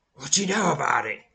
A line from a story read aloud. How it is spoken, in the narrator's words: snarls, having regained enough composure to speak